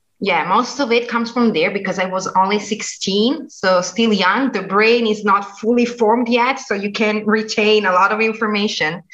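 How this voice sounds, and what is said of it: Slight American English accent. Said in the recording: “your English is spoken with an American accent ... a little bit”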